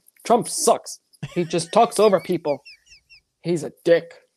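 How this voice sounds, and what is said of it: Impression of Frank. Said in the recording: “do your Frank impression”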